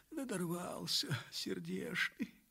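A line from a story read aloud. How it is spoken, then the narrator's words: Tearful sobbing woman. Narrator (Russian): Авдотья всхлипывала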